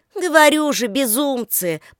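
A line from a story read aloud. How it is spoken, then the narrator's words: Grumble. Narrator (Russian): проворчала Татьяна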